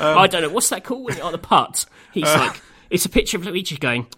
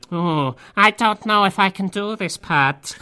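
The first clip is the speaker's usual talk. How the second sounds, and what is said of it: Twisted, sinister Luigi voice impression. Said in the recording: “your Luigi impression there. It's too twisted. It's certainly different to how Charles Martinet would put it. It's more of a Hannibal Lecter take.”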